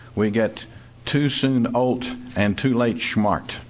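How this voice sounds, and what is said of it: Strong put-on German accent. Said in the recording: “in a strong German accent”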